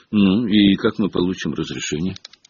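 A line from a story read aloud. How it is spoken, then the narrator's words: Glum question. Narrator (Russian): уныло спросил Рон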